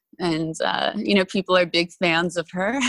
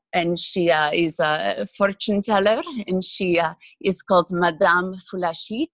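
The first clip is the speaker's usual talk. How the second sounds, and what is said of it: Put-on Middle Eastern accent. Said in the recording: “She talks in like a Middle Eastern accent, sort of like this.”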